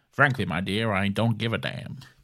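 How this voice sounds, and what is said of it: Old Hollywood mid-Atlantic accent. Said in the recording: “The transatlantic accent, also called a mid-Atlantic accent, is a way of speaking English that is halfway between American and British ... You hear it in old Hollywood films from the 1930s and 1940s.”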